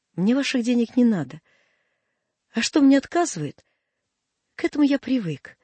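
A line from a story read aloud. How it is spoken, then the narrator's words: Shaky voice. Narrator (Russian): сказал дрогнувшим голосом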